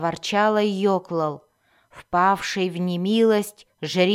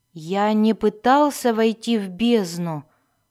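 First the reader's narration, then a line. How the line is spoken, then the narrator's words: Timid objection. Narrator (Russian): робко возразил Альтан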